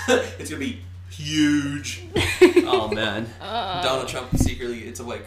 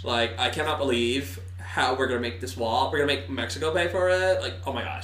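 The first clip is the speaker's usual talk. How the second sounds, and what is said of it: Stereotypical valley girl voice. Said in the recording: “Donald Trump talks like your stereotypical blonde white chick”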